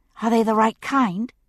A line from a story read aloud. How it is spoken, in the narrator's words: she asked anxiously